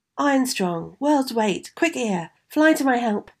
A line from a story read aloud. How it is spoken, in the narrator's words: cried Peter